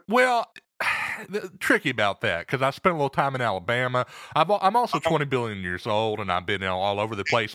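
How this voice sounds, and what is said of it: Eastern Texas Southern accent. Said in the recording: “That's where you get that accent? ... My accent is kind of an amalgam of several places, but you can probably place it to Eastern Texas primarily. ... Southern lilt in there ... a little bit more Bible Belt in my brogue”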